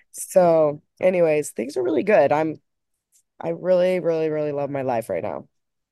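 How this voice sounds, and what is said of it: Funny-sounding voice from a cold. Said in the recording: “I have like a slight cold. That's why my voice sounds so funny ... So now my voice sounds even worse”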